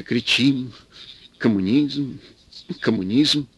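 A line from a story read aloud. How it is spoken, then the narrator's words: Bitter whisper to no one. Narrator (Russian): горько прошептал, никому не обращаясь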